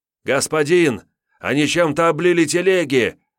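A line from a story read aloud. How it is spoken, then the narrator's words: Old man yelling in panic. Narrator (Russian): заполошенно орал Бруно, старый верный слуга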